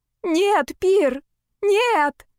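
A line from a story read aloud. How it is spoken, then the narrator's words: Terrified scream. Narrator (Russian): закричала в ужасе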